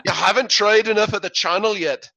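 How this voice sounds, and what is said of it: Poor Irish impression of James Kennedy. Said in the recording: “sounds Irish in the back of my head ... That was the worst imitation of James Kennedy ... sounded more like the Lucky Charms serial character”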